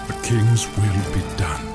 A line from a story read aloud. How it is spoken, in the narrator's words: the other replied, his voice hollow, his eyes haunted